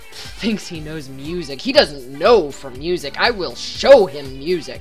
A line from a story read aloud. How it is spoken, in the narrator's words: muttering to himself